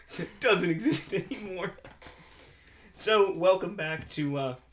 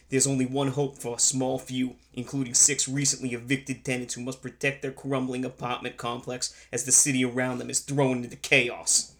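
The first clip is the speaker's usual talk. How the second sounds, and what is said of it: Put-on New York accent. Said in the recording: “your accent was amazing. Spot on. ... your New York accent”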